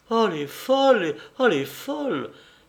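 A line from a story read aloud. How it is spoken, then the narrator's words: Aunt exclaiming. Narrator (French): s'écria la tante Agnès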